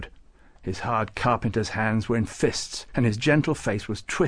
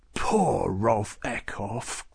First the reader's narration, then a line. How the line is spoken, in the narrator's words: Klaus growled